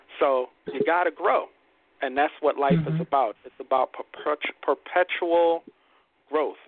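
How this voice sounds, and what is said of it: Brooklyn accent. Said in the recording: “My Brooklyn accent almost got in the way.”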